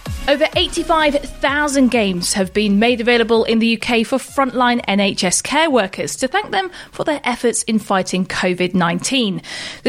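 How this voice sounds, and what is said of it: Formal newsreader voice. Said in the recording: “her bestest news voice”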